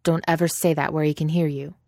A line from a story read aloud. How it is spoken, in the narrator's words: Toast said fiercely